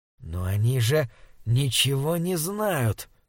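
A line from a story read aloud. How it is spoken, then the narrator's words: Whispering. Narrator (Russian): прошептал Крейг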